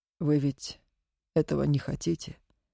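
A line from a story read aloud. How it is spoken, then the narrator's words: Quiet question. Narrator (Russian): тихо спросил Наганов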